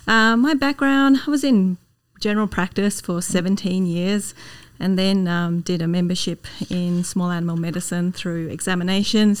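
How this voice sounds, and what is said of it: Australian accent. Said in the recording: “your beautiful Australian accent. Not yet Canadianized... I don't know if I'm ever going to lose this accent”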